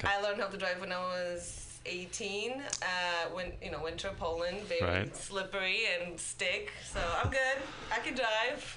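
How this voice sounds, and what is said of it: Polish accent. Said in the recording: “I'm from Poland. ... Oh, that's what the accent is.”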